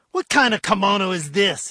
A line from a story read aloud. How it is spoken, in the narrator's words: he roared